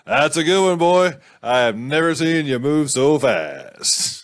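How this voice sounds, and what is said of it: Character voice with an accent. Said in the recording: “I don't know why he's got that accent.”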